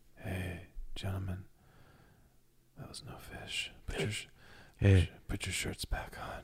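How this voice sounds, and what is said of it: Sexy elf voice. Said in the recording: “what do the elves sound like? ... Sexy. They sound sexy.”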